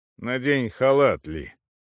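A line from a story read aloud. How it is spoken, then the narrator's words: Rather dry. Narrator (Russian): довольно сухо сказал он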